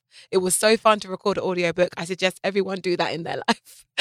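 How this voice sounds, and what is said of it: British accent. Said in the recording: “British accent ... my beautiful accent”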